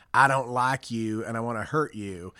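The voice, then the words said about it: Put-on East Texas accent. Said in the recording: “I love the accent you just put ... Could be East Texas somewhere.”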